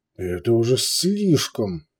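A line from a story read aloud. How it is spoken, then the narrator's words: Growl. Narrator (Russian): прорычал Биджар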